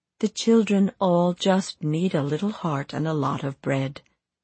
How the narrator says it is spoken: said Eva

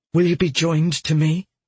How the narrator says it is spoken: he breathed

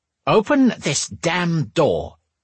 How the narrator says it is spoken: demanded

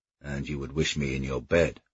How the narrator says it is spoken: he said gently, lowering his voice to match her inducement

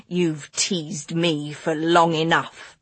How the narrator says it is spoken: Stilton said, and his voice had a coldness that Clara had never heard before

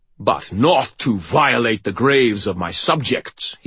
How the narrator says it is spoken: he boomed some more

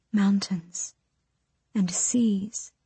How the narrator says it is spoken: she whispered

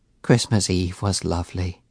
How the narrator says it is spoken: she said gently

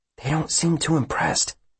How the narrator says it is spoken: Will whispers to Marin

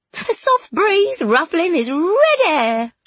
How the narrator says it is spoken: she cooed

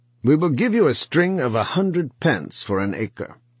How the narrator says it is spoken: he said harshly

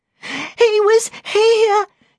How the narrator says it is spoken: she sobbed

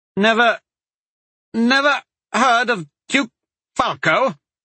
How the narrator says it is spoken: Kaya sputtered, shocked

